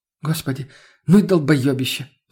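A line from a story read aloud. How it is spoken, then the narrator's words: Sighing. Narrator (Russian): вздохнула Лена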